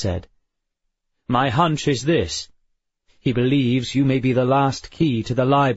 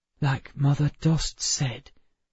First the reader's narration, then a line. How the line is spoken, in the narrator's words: whispered Emma